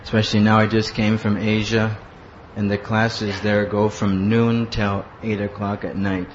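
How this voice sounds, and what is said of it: Hoarse, worn-out broken voice. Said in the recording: “my voice doesn't work. It's broken ... my voice is just broke down”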